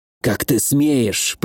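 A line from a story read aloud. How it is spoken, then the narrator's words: Hissed. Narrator (Russian): прошипел он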